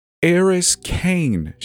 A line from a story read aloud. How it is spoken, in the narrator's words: she giggled